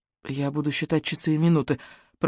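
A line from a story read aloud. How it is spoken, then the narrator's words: Mumbling. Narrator (Russian): пробормотала Руби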